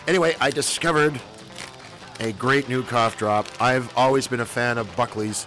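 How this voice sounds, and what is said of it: Scratchy, congested voice with a cold. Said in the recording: “I've got a bit of a cold, ... a bit of a scratchy throat, ... The old runny nose.”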